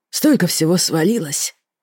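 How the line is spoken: Tired exhale. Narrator (Russian): Устало выдохнул Рен

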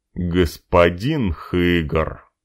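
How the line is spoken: Reproachful drawl. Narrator (Russian): укоризненно протянул господин Шарль

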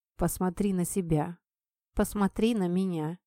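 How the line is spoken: Quiet, into ear. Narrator (Russian): тихо сказал мне на ухо

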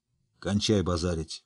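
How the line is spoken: Gruff mutter. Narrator (Russian): буркнул Ярпин

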